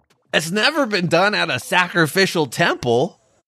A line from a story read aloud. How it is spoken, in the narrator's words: the boyfriend shouted